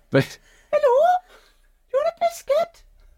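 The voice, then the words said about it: High-pitched Welsh accent impression. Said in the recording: “when, like, Luca and our nephews do an impression of her, they just suddenly speak really high ... not all Welsh people just have really... My mum hasn't got a high voice. She's got a very normal voice apart from the accent.”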